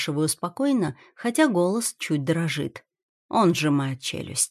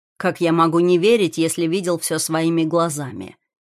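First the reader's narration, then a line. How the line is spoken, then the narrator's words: Sharp reply. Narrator (Russian): отвечает резко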